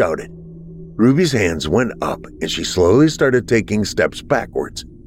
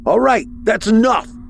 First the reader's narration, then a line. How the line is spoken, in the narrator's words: I shouted